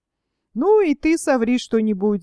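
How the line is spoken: Laughing. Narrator (Russian): засмеялся Филипп

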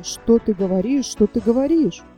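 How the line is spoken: Frightened indistinct mumbling. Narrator (Russian): Напуганный таким предложением, баран бормотал невнятно

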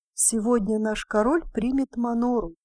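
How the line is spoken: Plain. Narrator (Russian): сказала одна

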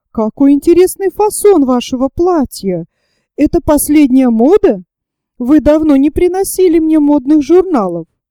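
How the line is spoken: Exclamation. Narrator (Russian): воскликнула

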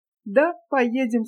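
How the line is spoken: Laughing. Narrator (Russian): сказала, смеясь Настенька

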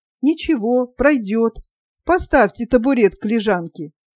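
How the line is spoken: Calm speech. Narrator (Russian): спокойно проговорил

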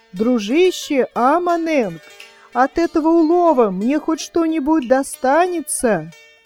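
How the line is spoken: Loud question. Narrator (Russian): громко спрашивает

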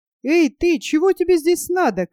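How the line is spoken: Shout. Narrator (Russian): крикнул Нильс

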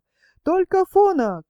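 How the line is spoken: Loud squeak from below. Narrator (Russian): кто-то внизу громко пропищал

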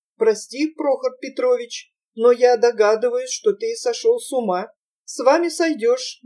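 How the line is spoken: Gloomy, calm answer. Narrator (Russian): мрачно, спокойным голосом ответил Прохор

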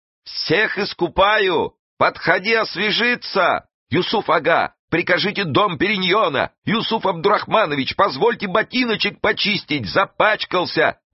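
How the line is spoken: Servants shouting over each other. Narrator (Russian): наперебой кричали служители

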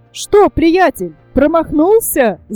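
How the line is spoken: Shout. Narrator (Russian): закричал Петер

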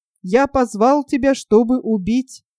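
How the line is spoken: Plain. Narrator (Russian): сказал царь

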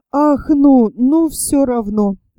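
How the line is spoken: Sighing. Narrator (Russian): вздохнул Степан Трофимович

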